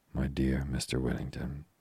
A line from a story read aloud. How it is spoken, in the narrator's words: she said